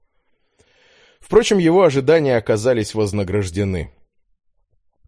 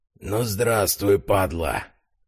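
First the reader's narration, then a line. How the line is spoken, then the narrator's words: Breathed into ear. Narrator (Russian): Буквально выдохнули ему в ухо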